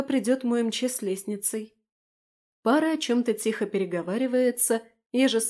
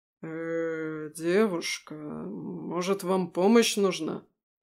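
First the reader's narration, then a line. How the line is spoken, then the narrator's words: Bewildered man. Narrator (Russian): Растерянно произносит мужчина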